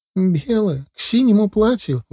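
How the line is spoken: Incredulous exclamation. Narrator (Russian): воскликнула жена так, как будто я ей предложил купальник с шапкой-ушанкой надеть

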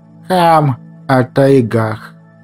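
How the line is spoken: Calm correction. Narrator (Russian): Спокойно поправил он Петрова

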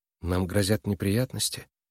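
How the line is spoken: Quiet question. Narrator (Russian): тихо спросила Нойс

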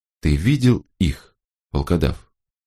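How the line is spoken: Quiet question. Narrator (Russian): так же тихо спросил

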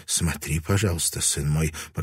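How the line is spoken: Muttered. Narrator (Russian): пробормотала она

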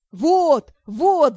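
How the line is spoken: Loud shouting. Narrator (Russian): заорали парни

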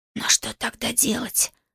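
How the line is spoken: Confused whisper. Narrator (Russian): прошептал растерянно

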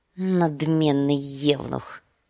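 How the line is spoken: Muttered. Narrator (Russian): пробормотал Визирис

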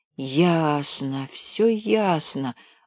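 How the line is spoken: Mutter. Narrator (Russian): бормотал он

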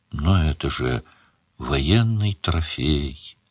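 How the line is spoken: Sad. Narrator (Russian): грустно сказала Мара

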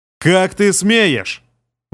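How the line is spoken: Roaring emperor. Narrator (Russian): взревел император

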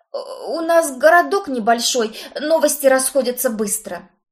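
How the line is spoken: Groan. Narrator (Russian): Простонал поверенный

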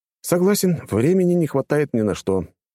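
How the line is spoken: Sighing. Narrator (Russian): тоже вздохнул я

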